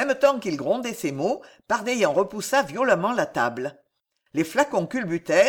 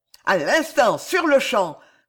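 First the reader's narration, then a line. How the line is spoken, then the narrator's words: Nobleman bellowing furiously. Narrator (French): vociféra le vicomte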